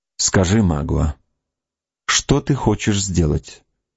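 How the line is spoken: Strained firm, calm voice. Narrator (Russian): произнесла Кора, делая величайшие усилия, чтобы говорить твердо и спокойно

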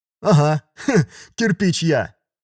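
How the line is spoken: Short laugh. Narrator (Russian): хохотнул Конопатый

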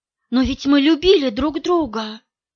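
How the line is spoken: Whispered. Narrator (Russian): прошептал Кирилл

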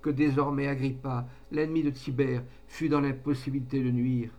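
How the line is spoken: Exclaiming. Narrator (French): s'écria-t-elle

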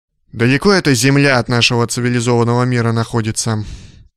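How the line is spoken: Vexed sigh. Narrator (Russian): Вздохнул от досады капитан

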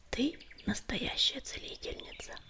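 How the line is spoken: Whispered. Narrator (Russian): прошептал он

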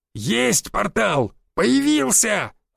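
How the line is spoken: Shout. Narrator (Russian): закричал Буян

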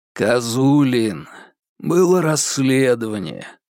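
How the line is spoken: Weary. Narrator (Russian): устало сказал Яков Семёныч

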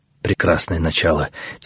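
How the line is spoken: Quiet speech. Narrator (Russian): тихо проговорил Арье Сикарий

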